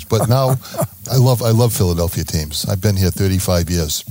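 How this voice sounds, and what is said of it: Boston accent. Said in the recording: “as you can tell from my accent, I'm not from Pennsylvania ... I grew up outside of Boston.”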